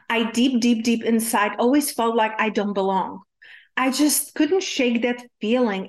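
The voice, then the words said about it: Czech accent in English. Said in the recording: “growing up in Czech Republic... my accent is from”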